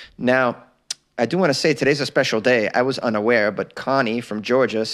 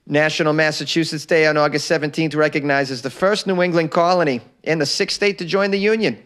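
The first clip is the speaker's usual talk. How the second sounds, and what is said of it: Put-on Boston accent. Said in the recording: “I'm going to read a little bit about National Masshole Day in a Boston accent”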